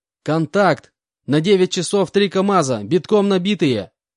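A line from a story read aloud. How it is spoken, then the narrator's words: Yelled at full volume. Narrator (Russian): заорал я во всю глотку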